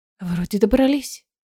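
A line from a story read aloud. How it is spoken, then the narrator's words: Muttering. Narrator (Russian): пробормотала Айлина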